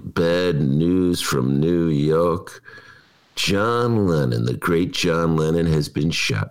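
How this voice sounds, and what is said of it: Imitates another person's voice. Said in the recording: “That's my Howard Cosell imitation.”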